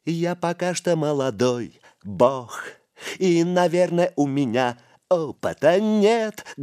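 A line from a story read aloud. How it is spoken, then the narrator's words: Loud off-key singing. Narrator (Russian): громко запел Духарев, безжалостно перевирая слова и мелодию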